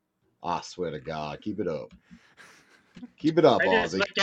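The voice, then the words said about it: Put-on Australian accent. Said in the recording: “I'm having more fun with the Australian accent.”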